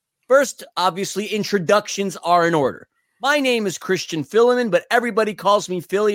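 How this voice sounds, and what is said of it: American New York accent. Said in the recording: “as you can tell from my accent, I'm the American guy, hailing from New York City”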